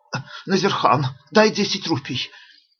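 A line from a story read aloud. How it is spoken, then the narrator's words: Hoarse, breathless. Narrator (Russian): Ашока говорил хриплым, задыхающимся голосом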